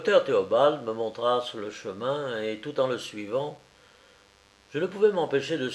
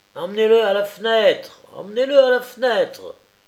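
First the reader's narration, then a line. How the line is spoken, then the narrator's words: Shrill cry. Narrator (French): s'écria une voix aigre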